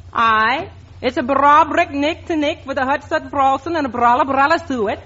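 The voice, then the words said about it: Put-on Scottish accent. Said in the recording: “speak with the Scotch dialect”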